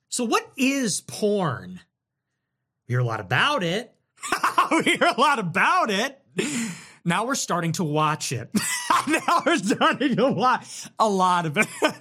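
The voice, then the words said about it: Imitates another person's voice. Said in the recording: “That's my Tucker impression. You like my Tucker impression?”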